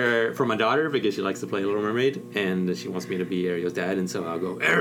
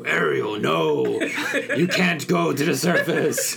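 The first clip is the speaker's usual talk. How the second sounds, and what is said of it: Cartoon king voice, Cookie Monster-like. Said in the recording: “doing an impression of Ariel's dad from The Little Mermaid ... quickly turns into a Cookie Monster”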